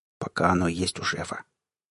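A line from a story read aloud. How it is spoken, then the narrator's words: Quiet, for one listener. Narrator (Russian): тихо, чтобы слышал только я, добавил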